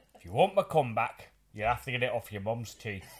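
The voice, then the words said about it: Imitates another person's accent. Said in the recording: “I did it with a Peter Kay accent.”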